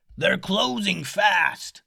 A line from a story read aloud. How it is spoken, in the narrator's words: a crew member up in the crow's nest ... yell